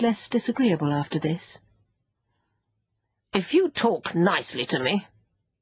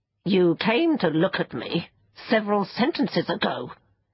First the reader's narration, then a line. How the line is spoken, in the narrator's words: it said crossly